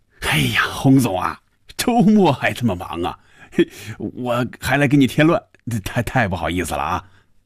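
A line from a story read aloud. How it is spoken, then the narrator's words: Laughing, friendly. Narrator (Chinese): 范宇宙笑着说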